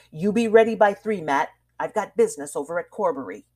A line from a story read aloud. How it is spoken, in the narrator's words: he added in a hard voice